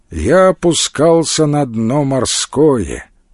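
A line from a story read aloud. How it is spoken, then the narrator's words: Flat monotone. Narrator (Russian): ровным монотонным голосом сказал Илья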